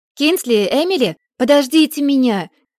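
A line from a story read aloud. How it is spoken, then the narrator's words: Shout. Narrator (Russian): крикнула Бекка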